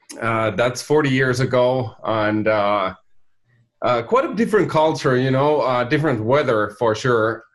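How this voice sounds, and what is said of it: Finnish accent. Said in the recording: “my accent is from Finland too”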